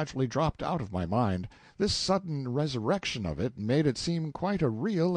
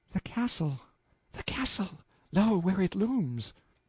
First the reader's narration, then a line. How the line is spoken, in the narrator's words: Her eyes were burning now, said in a panting whisper